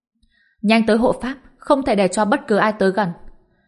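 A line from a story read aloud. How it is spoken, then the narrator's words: Loud. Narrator (Vietnamese): Lộ Tinh lớn tiếng nói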